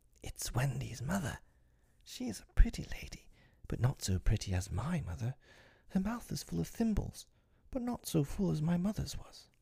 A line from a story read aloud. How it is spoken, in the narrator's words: he whispered to Tink